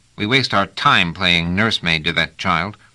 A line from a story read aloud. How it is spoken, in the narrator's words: said Trevise, looking after them impatiently